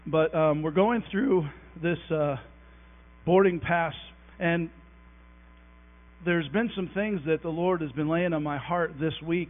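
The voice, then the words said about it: Strained, struggling voice. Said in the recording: “My voice is being a little tricky with me this morning. It's there somewhere. I'm not sick, I just can't talk.”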